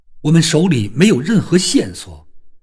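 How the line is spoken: Shouting. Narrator (Chinese): 我嚷道

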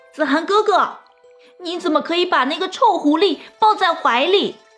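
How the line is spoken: Shrieking. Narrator (Chinese): 李初晴却是尖叫道

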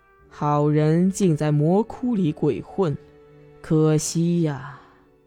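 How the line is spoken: Sighing. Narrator (Chinese): 毒仙叹息道

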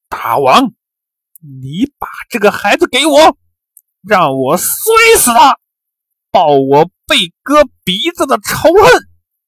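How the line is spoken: Through gritted teeth. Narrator (Chinese): 哈密迟咬牙切齿地说

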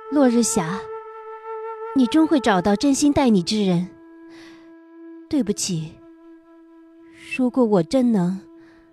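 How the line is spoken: Murmuring. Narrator (Chinese): 我喃喃道

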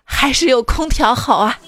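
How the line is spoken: Heartfelt sigh. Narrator (Chinese): 由衷的感叹了一句

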